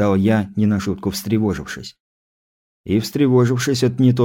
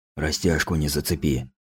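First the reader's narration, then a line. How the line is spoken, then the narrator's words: Whisper. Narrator (Russian): прошептал он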